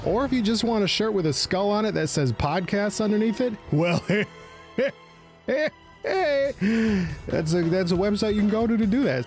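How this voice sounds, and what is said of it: Put-on accent. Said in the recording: “I gotta stop having this accent and become ... again”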